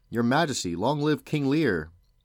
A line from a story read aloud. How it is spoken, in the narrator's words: They cried out together